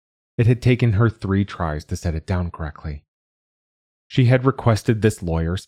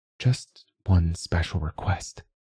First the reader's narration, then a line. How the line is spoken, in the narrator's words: whispered